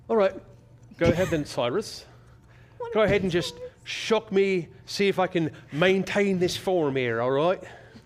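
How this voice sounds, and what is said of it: Put-on Irish accent, drifting. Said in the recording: “I love the accent slowly shifting at the end. You're like, oh, right, Irish.”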